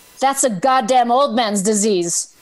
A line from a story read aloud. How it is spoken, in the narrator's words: says loud but not shouting